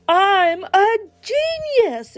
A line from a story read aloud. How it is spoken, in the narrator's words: exclaimed Mr